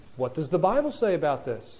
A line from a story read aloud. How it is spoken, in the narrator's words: a wife can ask her husband, gently and respectfully